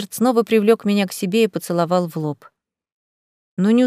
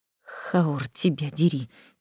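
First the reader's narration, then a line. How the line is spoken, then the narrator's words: Dragon swearing quietly. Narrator (Russian): тихо выругался дракон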